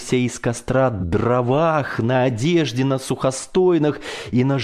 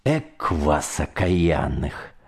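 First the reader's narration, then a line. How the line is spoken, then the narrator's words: Good-natured grumble. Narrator (Russian): проворчал я на них незлобиво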